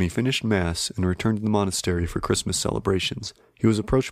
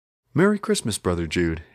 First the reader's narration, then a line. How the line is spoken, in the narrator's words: said cheerfully